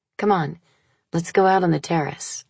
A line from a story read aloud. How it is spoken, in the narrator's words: I said